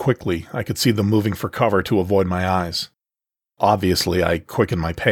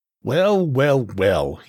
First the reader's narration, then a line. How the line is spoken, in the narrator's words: sneered